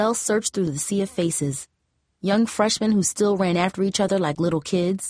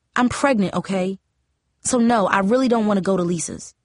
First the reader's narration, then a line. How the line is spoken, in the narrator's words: Lizelle said sharply